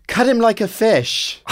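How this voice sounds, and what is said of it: Terrible English accent. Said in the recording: “In that terrible, terrible English accent.”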